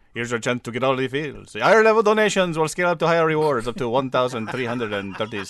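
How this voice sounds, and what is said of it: Put-on Cuban accent. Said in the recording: “let me do it in my Cuban voice.”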